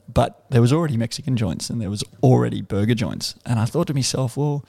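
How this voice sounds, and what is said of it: Broad Australian accent. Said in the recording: “I've got a broad Australian accent”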